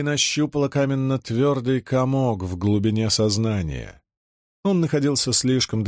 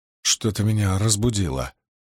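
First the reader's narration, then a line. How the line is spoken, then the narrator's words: Muttered. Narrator (Russian): пробормотала она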